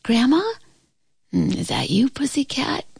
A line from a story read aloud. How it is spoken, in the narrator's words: she answered in a sleepy voice